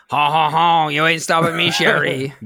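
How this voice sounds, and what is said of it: Put-on villain accent with laugh. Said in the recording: “he doesn't really have that accent ... He does in our movie.”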